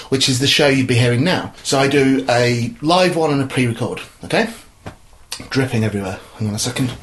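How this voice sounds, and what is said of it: Out of breath. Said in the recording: “I'm a bit out of breath. I'm not sure I should be doing the stairs”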